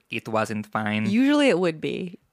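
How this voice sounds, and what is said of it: Imitating the SpongeBob narrator. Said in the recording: “That was my attempt at the SpongeBob narrator... The accent wasn't fine.”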